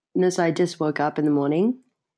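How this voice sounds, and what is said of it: Attempted Australian accent. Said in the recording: “we wanted to do the accent ... Give us a little piece, and ... gets to grade your accent ... I'm not really sure if this is Australian ... like Aussie”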